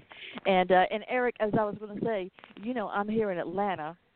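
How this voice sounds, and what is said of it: New York-sounding accent. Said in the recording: “I don't know if you noticed the accent. You might have thought I was from New York or somewhere when you heard me speak.”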